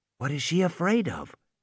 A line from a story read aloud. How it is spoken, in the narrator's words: Malcolm whispered